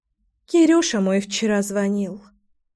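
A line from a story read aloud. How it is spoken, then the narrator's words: Sighing. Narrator (Russian): вздохнула Вита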